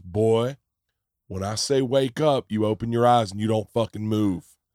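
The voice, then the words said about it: Southern police officer voice. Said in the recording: “that impression ... that Southern cop going, boy.”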